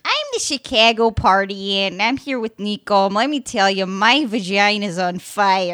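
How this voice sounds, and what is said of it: Chicago party ant character voice. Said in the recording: “who can do the best impression of the Chicago party ant”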